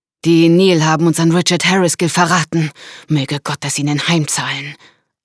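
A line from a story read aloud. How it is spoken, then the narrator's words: Hate-filled answer. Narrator (German): antwortete Evelyn Nikora mit hasserfüllter Stimme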